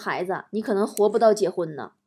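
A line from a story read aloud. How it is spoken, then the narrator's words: Sighing, regretful. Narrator (Chinese): 算命大师 摇头叹气的说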